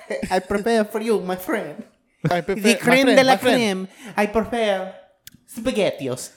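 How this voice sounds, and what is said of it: Exaggerated Mario-style Italian accent. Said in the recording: “Italians are slapping you right now. ... So it was not Mario.”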